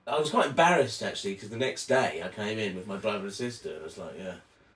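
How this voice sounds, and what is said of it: English accent. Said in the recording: “Are you from England? You got a cute accent.”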